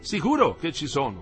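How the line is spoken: Dean exclaiming. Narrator (Italian): esclamò il decano

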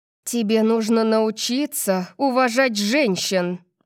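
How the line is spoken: Growled. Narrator (Russian): прорычала я

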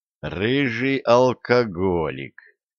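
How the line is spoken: Mumbled. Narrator (Russian): пробормотал Виталик

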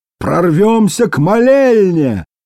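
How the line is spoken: Shout. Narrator (Russian): крикнул Торрелл

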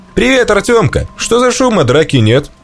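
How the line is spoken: Cheerful teasing. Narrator (Russian): весело подзадорил Семёныч

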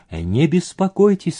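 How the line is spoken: Plain. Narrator (Russian): сказал он

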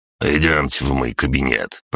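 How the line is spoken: Grumbling. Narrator (Russian): проворчал Гаврош

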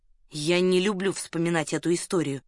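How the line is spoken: Stern. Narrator (Russian): строго произнес он

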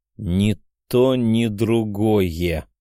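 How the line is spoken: Slow. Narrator (Russian): медленно проговорил я

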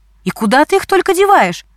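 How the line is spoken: Indignant mother asking. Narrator (Russian): возмущенно спрашивала Галина мама

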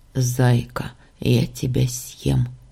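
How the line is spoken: Sleepy mumbling. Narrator (Russian): Слышу я сонное бормотание

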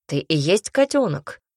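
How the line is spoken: Growling. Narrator (Russian): рыкнул Барс

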